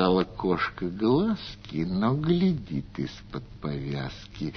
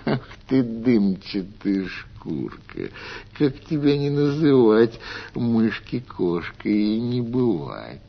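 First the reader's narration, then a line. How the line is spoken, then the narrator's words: Cat laughing. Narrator (Russian): Засмеялась кошка-мурка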